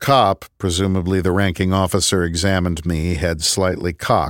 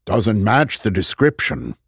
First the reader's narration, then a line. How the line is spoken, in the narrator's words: he sighed